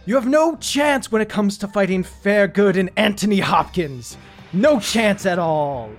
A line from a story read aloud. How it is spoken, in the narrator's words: he's gonna yell out